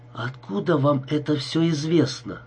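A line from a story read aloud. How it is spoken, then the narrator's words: Forced out with difficulty. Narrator (Russian): с трудом выдавил я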